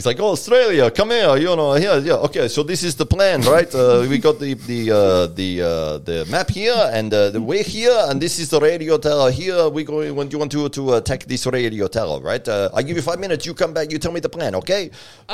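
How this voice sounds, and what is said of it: Deliberately bad put-on foreign accent. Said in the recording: “putting on a terrible accent ... I'm going to do the bad accent”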